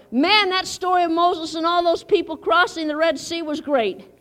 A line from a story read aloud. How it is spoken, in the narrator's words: yelled